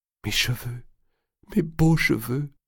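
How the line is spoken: Sobbing. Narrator (French): sanglotait Blanche

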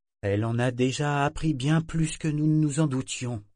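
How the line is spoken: Weary interrupting mother. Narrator (French): coupa sa mère d'un ton las

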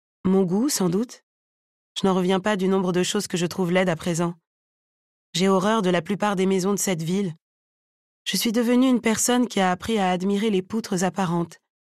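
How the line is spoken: Casual voice. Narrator (French): Elle dit d'une voix désinvolte

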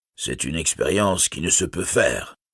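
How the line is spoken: Plain. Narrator (French): répondit Thorin

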